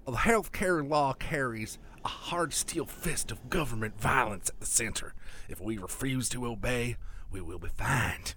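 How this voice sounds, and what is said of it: Deliberately bad put-on Alabama accent. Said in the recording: “done in my worst Alabama accent”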